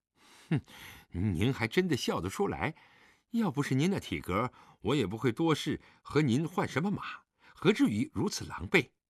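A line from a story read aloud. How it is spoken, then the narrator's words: Muttering. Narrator (Chinese): 李元芳嘴里嘟囔着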